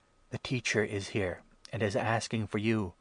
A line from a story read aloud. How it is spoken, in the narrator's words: Martha whispered